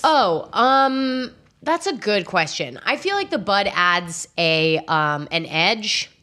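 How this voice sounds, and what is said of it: Congested, deep, loud voice. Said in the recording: “I actually sound like a man ... I sound like I live in a swamp because of my allergies today ... I'm scared that I'm yelling a lot”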